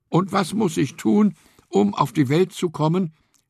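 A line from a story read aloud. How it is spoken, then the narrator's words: Called after. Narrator (German): rief Stevie ihm nach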